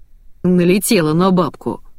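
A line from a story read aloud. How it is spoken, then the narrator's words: Sigh. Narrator (Russian): вздохнул Денис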